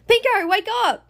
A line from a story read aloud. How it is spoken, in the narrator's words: Bluey shouts